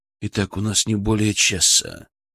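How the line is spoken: Quiet warning. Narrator (Russian): предупредил он тихо

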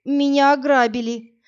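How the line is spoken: Moaning. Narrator (Russian): простонала Инна

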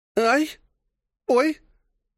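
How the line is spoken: Moaning and crying out in pain. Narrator (Russian): стонала и вскрикивала Дория после очередного взмаха руки племянницы

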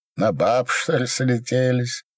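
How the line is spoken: Laughing. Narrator (Russian): засмеялся

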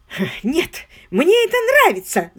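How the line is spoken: Shouted. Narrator (Russian): закричал он

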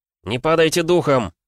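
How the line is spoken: Confident hopeful echoing shout. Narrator (Russian): крикнул игрорыцарь, и его голос эхом отразился от стен пещеры, звеня уверенностью и надеждой

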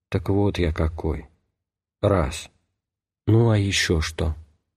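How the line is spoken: Calm, thoughtful priest. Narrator (Russian): батюшка спокойно и вдумчиво произнес

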